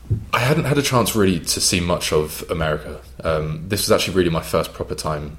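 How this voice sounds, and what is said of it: English London accent. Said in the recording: “my accent being English... a kid from London”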